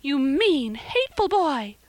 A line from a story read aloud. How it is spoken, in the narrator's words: she exclaimed passionately